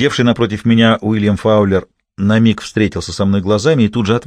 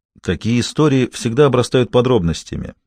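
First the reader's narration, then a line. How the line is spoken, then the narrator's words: Even tone. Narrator (Russian): ровным тоном заметил он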